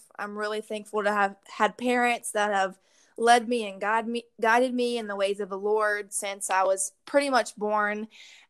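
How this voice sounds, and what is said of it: Southern US accent with twang. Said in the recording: “that southern accent ... we got that twang down here in all Louisiana”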